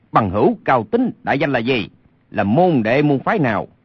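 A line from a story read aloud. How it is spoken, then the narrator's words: Angry shout. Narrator (Vietnamese): Lê Sinh lửa giận bốc lên quát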